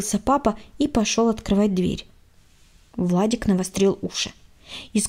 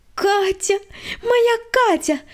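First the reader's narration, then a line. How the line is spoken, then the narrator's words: Joyful squeal. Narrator (Russian): радостно завизжала Света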